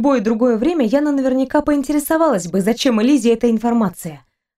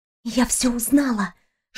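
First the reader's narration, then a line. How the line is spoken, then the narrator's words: Whispered. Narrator (Russian): шепотом сообщила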